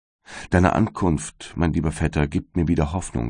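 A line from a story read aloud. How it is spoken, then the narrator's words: Plain. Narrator (German): sagte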